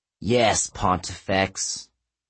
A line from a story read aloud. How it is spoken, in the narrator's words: Bryce said slowly